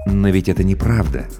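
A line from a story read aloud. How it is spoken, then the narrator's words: Soft. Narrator (Russian): мягко произнес Сарториус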